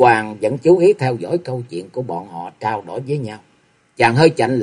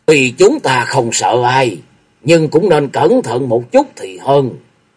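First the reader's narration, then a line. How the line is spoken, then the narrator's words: Big man, loud. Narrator (Vietnamese): Đại hán lớn tiếng rồi cất tiếng nói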